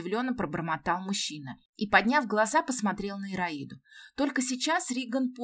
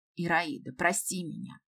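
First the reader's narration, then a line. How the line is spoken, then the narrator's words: Sighing. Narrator (Russian): Риган вздохнул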